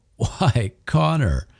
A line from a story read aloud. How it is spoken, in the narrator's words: gasped through his snickering